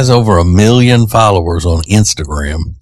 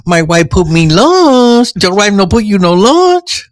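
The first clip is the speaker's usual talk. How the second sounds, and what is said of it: Exaggerated Mexican accent. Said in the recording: “he's a Mexican fella ... I think he exaggerates his accent a little bit.”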